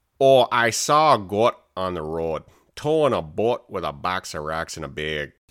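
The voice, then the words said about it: Wisconsin or Minnesota northern accent. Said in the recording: “your Wisconsin northern accent. Or Minnesota ... Minnesotan or just generic”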